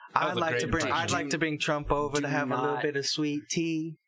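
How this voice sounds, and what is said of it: Put-on Southern accent, British-sounding. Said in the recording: “my Southern accent ... I thought it was a fine impression ... It sounded like the South is like still at the hands of British imperialism ... like if like the Queen lived in the South”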